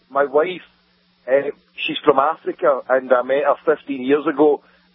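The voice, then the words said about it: Very thick Scottish accent. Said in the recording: “it is the most Scottish accent I've heard ... it's thicker than Scrooge McDuck”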